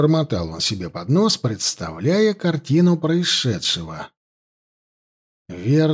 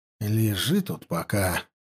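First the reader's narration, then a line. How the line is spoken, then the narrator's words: Muttered. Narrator (Russian): пробормотал жрец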